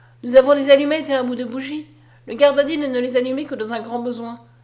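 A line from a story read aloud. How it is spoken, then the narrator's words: Exclaiming. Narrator (French): s'écria Julien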